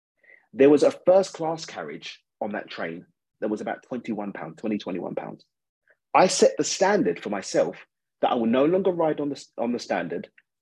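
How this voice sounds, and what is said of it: British accent. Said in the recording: “I'm from the UK, if you didn't tell from the accent”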